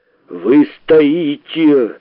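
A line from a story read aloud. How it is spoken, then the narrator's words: Growling. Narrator (Russian): рычал Филипп Филиппович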